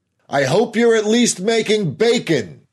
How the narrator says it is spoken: Harris called out

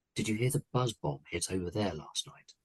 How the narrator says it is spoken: said, then more quietly

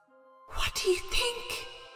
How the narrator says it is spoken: Pandora whispered to Epimetheus, shaking

